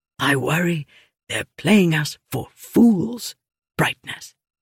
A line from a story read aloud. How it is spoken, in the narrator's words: he whispered